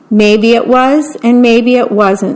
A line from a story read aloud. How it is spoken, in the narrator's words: said Frog